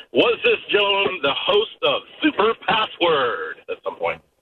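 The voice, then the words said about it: Game show host voice. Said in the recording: “That was like a pop-up game show host accent that he did.”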